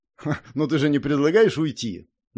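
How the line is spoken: Nervous giggling question. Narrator (Russian): нервно хихикнув, спросил снайпер

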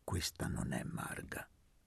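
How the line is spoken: Quiet aside. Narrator (Italian): disse Elpidio sottovoce a Luca

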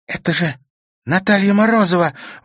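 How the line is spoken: Sudden exclamation. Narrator (Russian): воскликнула вдруг Карина

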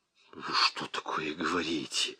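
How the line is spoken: Hissing. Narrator (Russian): зашипел Ермолкин

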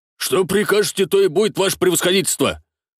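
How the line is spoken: Shouting out. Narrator (Russian): выкрикнул Молчанов

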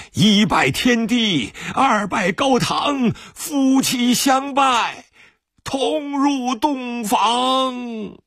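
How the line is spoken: Panicked shouting. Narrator (Chinese): 老主人怕国民党兵追问新郎的下落，慌乱中喊叫着

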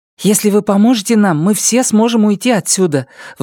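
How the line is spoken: Agitated. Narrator (Russian): взволнованно прибавила Карсис

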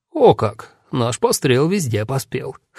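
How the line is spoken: Smirking snort. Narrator (Russian): хмыкнул Хорст

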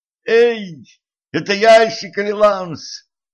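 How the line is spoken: Screaming. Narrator (Russian): завопила Кетран

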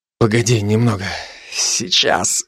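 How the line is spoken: Strained, dry-mouthed. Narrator (Russian): выдавил я, облизав пересохшие губы

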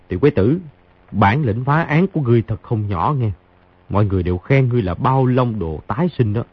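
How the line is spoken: Soft chuckle. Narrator (Vietnamese): Khang Hy cười khẽ một tiếng nói

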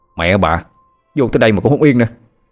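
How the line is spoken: Harsh shout. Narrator (Vietnamese): quát

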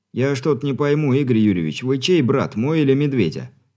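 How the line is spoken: Amused chuckle, young man. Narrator (Russian): Не выдержав, хохотнул парень

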